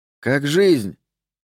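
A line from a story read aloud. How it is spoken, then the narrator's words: Shouted. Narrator (Russian): крикнул ему сосед Али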